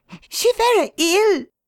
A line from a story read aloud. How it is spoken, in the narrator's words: cried the girl, looking with indignant eyes